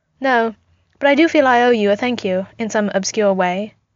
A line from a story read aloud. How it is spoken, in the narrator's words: she replied